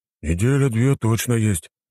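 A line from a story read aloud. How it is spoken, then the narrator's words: Uncertain. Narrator (Russian): неуверенно ответил парень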